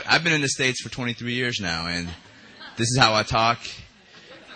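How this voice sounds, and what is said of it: Usual voice. Nothing is said of it.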